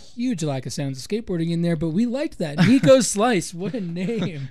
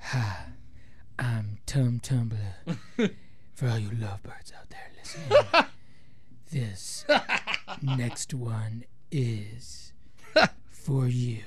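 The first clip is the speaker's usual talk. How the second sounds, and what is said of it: Put-on radio DJ voice. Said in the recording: “let me show you my radio voice.”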